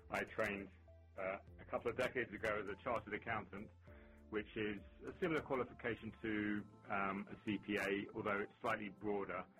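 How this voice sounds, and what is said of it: London English accent. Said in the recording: “as you can hear from my accent, I'm not actually from Boston ... I hail from London”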